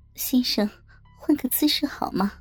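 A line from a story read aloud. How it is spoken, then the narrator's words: Soft, smiling. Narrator (Chinese): 陶丽微笑地轻声说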